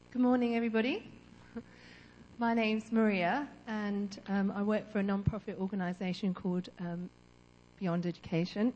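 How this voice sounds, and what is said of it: Strained, partly lost voice. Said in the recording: “my voice has gone a bit. I've been singing in children's church.”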